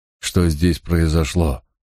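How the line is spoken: Breathless exhale. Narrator (Russian): выдохнул я

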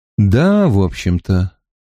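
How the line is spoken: Gloomy reply. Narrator (Russian): мрачно ответил Гет

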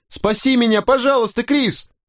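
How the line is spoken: Terrified scream. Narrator (Russian): Я в ужасе закричал

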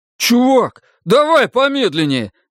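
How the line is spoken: Shouted. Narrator (Russian): закричал Ричи

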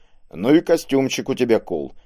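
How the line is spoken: Chuckling. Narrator (Russian): хохотнул он

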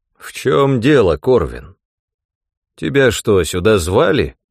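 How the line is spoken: Dry question. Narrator (Russian): сухо спросил он

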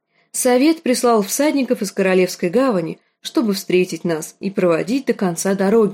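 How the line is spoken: Plain. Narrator (Russian): ответил он

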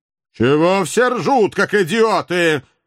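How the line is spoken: Angry roar. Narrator (Russian): уже всерьез разгневанно взревел обладатель оранжевого взгляда

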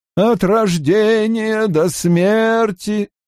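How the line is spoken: Chanted in unison. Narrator (Russian): нараспев произнесли они в унисон

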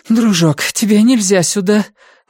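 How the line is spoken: Breathless exhale. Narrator (Russian): выдохнула Карен

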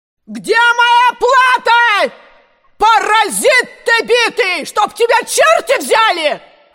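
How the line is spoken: Yelling from above. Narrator (Russian): орала она с верхней площадки

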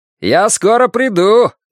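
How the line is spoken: Shouted after someone. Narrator (Russian): крикнул ему вслед комиссар

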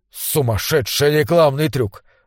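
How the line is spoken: Spiteful. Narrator (Russian): злобно сказал Бурхард

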